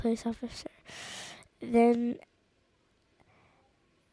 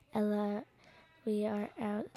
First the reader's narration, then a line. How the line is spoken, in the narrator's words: said Stella